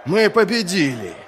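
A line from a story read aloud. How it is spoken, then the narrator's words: Dwarves laughing, shouting. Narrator (Russian): Карлы смеялись и кричали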